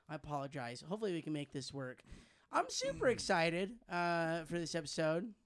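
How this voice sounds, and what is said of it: Nearly lost, strained voice. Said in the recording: “my voice is not today. It's gone.”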